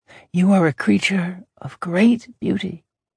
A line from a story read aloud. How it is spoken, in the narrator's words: she whispered in his ear